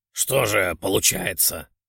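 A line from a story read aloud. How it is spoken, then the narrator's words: Angry declaration. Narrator (Russian): сердито заявил он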